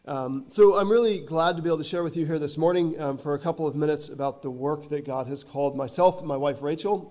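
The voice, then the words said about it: Hoarse, strained voice. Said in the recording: “I do want to apologize a bit for my voice today. I'm getting over a cold and starting to lose my voice. It's not an Irish accent”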